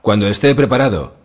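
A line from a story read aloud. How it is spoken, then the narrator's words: Shouted reply. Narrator (Spanish): replicó Victarion, también a gritos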